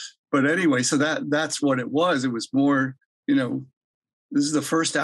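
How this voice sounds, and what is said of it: Usual voice. Nothing is said of it.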